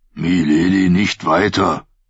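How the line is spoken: Deep accented growl. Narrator (German): In seinem basstiefen Knurren war der Akzent von Norvos nicht zu überhören

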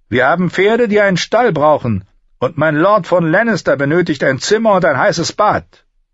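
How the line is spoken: Servant calling from behind. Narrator (German): rief die Stimme eines Dieners hinter ihr

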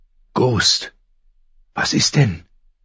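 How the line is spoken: Quiet question. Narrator (German): fragte er leise

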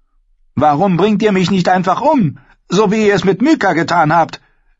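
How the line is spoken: Shouting. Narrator (German): schrie Arrua ihn an

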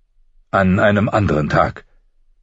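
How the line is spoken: Sharp. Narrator (German): sagte Ned, vielleicht zu scharf

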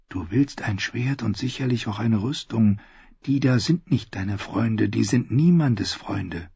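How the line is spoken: Said quietly. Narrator (German): sagte leise

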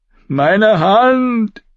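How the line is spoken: Guard wailing in pain. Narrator (German): jammerte der Gardist und hielt seine gebrochenen Finger

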